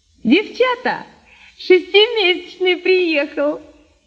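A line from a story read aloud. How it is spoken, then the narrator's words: Woman shouting. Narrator (Russian): крикнула птичница Нинка Арбузова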